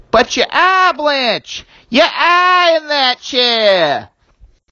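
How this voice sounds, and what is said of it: Put-on Boston accent. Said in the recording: “You wanted this line of dialogue delivered in a Boston accent. ... from a born and bred masshole kid”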